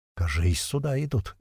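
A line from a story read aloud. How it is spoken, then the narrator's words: Barely audible. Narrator (Russian): еле слышно сказал колючий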